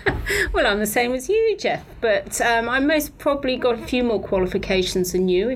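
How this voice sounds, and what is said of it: British accent. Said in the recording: “you can tell by my accent that I'm British”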